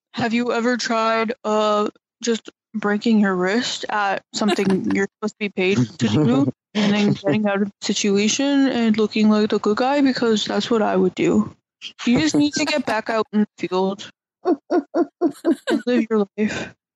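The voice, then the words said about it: Imitates another person's voice. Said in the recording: “my Clay impression”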